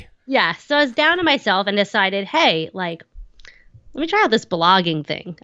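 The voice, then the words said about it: Thick Long Island accent. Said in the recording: “I'm on Long Island, if you can't tell from my thick accent.”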